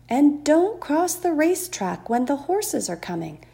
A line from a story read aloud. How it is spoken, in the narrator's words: cried Mrs